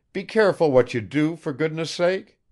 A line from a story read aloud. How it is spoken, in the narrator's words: cried Arkady after him in bewilderment